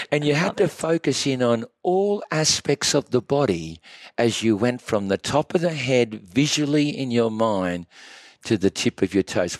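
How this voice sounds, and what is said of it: Noticeable accent. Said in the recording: “I love his accent.”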